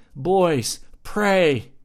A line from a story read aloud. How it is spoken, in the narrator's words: begged